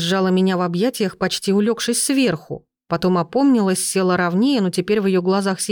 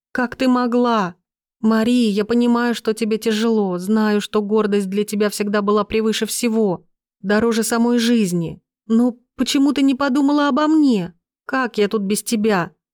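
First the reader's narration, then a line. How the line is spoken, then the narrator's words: Tearful sobbing. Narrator (Russian): Она всхлипнула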